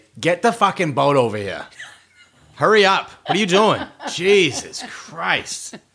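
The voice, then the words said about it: Put-on Boston accent. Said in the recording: “How would you say help me in a Boston accent?”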